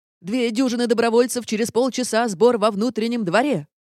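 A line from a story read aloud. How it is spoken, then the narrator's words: Barked. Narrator (Russian): как рявкнет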